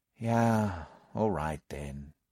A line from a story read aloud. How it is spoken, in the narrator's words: I said with a sigh